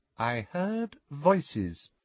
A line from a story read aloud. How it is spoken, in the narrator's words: she said quietly